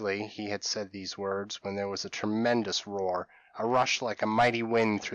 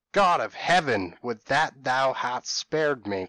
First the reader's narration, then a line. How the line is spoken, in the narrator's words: cried Philip … in agony